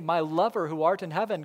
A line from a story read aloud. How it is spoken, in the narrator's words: God says